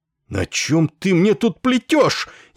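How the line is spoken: Furious confused yell. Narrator (Russian): яростно заорал сбитый с толку Ессариан

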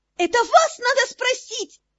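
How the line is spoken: Indignant shriek. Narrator (Russian): негодующе взвизгнула Мира

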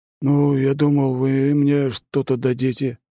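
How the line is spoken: Uncertain mumble. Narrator (Russian): неуверенно пробормотал Бонд

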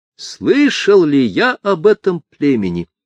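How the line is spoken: Exclamation. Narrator (Russian): воскликнул натуралист

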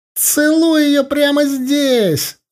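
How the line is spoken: Shrill yell. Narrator (Russian): заорал тот же пронзительный голос

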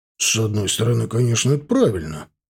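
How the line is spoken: Snorting. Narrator (Russian): хмыкнул Эльдар

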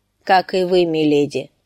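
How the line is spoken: Even-toned reply. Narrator (Russian): отвечал сир Борис ровным голосом

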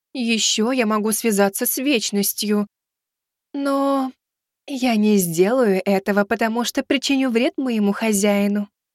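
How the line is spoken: Sweet voice. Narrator (Russian): сладким голосом произнесла Азимандия

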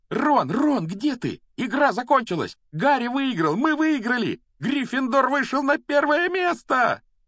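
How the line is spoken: Joyful shrieking. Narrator (Russian): Радостно вопила Гермиона

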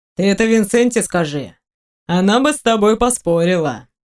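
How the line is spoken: Mocking demon reply. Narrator (Russian): насмешливо ответил демон

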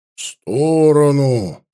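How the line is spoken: Growl. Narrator (Russian): прорычал помор

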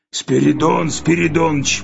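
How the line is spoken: Hoarse. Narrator (Russian): прохрипел он

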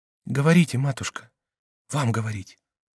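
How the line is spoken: Barely audible voice. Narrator (Russian): едва слышным голосом он сказал Екатерине

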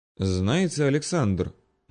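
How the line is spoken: Sudden purring. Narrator (Russian): неожиданно промурлыкала черненькая Марина

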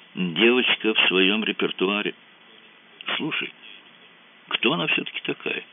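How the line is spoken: Quiet question. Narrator (Russian): тихонько спросил Мазур

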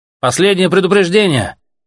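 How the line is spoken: Shout from a well. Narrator (Russian): крикнули из колодца

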